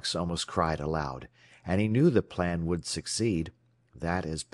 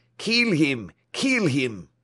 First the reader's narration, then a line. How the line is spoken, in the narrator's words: Several cried